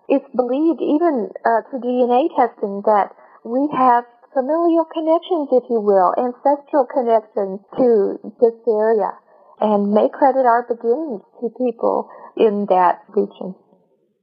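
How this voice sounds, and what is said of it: Non-Chicago, unusual accent. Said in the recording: “Both your accent and your name strike me as interesting. You do not sound like a Chicagoan nor a Waukeshite.”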